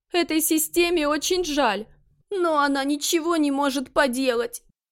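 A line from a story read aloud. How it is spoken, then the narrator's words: Almost sobbing. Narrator (Russian): Почти прорыдала система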